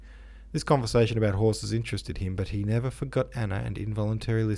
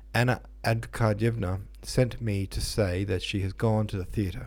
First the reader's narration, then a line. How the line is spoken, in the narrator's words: said a servant